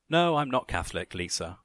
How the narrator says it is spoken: Carol laughed

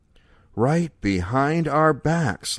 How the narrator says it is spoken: Leo breathed

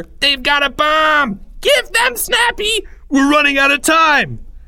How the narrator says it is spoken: yelled by Greg himself, on whom the gravity of the situation had fallen at last

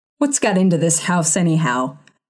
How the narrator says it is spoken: He growled

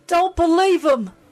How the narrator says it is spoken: Jen cried

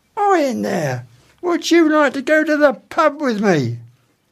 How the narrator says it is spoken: he put his face right up against the centipede's box and shouted

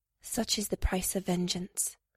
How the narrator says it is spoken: the lady said softly

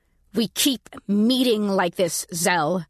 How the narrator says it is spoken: I said through gritted teeth

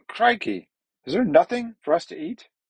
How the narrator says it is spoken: Booty cried angrily

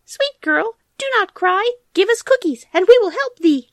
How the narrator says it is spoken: small mice squeaking and saying

